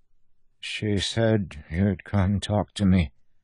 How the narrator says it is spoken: Ryan said softly

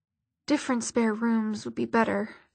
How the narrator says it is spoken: Alec muttered

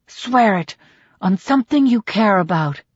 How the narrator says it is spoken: she hisses

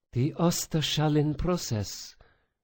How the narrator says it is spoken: Sophia breathed, betrayed by her own rising excitement

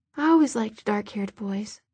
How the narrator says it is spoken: she said in a low voice

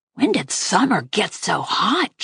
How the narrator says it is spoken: Jack muttered in my ear

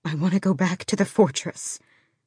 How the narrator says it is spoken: she breathed

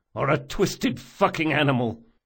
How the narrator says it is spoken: spat Locke

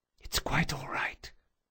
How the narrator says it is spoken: she whispered

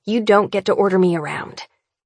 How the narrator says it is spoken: I snarl, feeling as if I could take a bite out of him

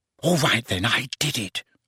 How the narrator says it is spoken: she whispered

